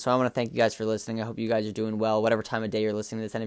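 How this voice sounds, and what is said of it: Flat, monotone, low-energy voice. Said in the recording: “my voice is a little monotone today. A little flat, a little boring.”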